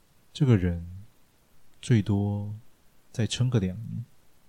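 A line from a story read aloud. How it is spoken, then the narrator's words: Sighing. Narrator (Chinese): 陈明凡感叹道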